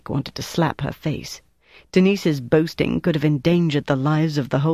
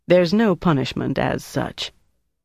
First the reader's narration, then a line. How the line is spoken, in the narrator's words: Paul said coldly